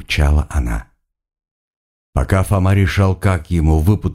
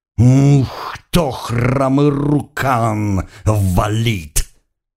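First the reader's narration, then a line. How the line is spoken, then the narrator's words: Growling shaman woman. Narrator (Russian): прорычала шаманка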